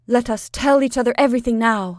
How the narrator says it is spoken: cried

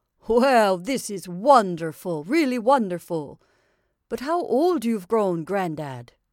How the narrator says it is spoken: exclaimed

